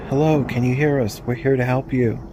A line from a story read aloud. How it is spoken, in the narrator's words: My cousin's partner yelled